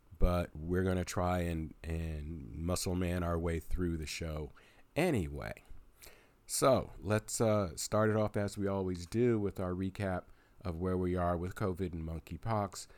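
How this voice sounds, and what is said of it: Raspy voice from a cold. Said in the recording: “I have been fighting a cold over the last few days ... my voice seems a little raspy”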